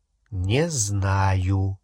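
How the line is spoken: Slow answer. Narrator (Russian): медленно ответил Гарри

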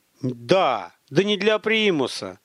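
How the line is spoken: Irritated. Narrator (Russian): раздраженно сказал Михаил

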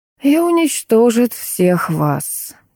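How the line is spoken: Quiet sigh. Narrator (Russian): тихо вздохнул Хосе

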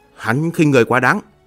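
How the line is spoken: Angry. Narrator (Vietnamese): Ngọc La Sát tức giận nói

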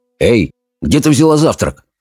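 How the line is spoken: Stern question. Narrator (Russian): строго спросил Питер

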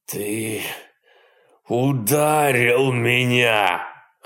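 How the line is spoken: Hoarse pained hateful growl. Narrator (Russian): хрипло прорычал, кривясь от боли и задыхаясь от ненависти

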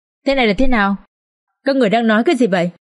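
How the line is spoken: Trembling voice. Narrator (Vietnamese): Bà Tuy Hòa run rẩy và nói

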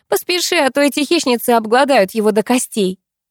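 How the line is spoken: Giggling. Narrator (Russian): хихикнула Катя

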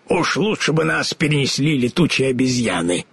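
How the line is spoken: Grumbled. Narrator (Russian): пробурчал он

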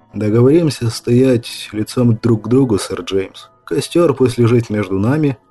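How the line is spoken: Calm explanation. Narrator (Russian): спокойно объяснил Брайан

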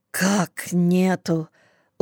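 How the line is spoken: Dejected whisper. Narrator (Russian): упавшим голосом прошептал Сашка

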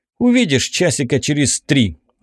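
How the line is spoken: Snapped. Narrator (Russian): огрызнулся

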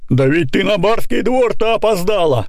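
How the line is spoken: Angry shout. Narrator (Russian): кричит ей Семен сердито

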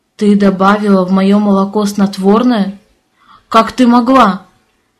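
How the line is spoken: Growled. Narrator (Russian): рыкнул на меня муж

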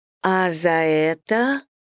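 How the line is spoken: Suggestive drawl. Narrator (Russian): протянула я с намеком

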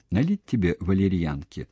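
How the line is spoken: Plain. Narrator (Russian): спросила Ираида

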